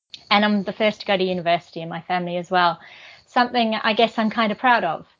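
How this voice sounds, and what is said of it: New Zealand accent. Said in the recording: “You can probably tell from my accent that although I'm now a citizen of the UK, I'm also a Kiwi from Aotearoa, New Zealand.”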